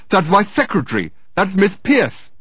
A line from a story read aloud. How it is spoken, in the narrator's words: exclaimed Dirk in astonishment